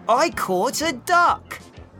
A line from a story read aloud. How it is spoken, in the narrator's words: he shouted